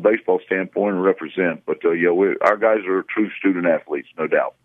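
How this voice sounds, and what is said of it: Deep voice, Southern drawl. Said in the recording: “That guy sounds like a coach. He's got that southern drawl. He's got that deep voice.”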